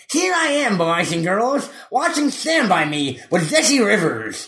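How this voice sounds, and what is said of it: Impression of a man with a lisp. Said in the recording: “Is that a good Gene Shalit? ... Does he have a lisp like that? ... Yes, I think he does. And he talks like this.”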